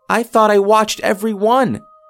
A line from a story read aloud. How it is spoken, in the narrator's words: she shouted